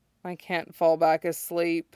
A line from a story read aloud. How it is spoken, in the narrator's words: Kenma mumbles